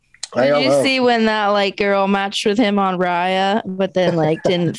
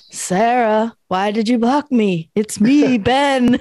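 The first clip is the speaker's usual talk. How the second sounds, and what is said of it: Eerie ghostly voice. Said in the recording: “Speaking in a ghost voice for some reason.”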